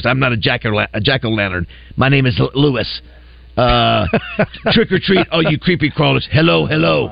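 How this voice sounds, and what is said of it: Creepy character voice. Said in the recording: “It's some kind of like creepy voice.”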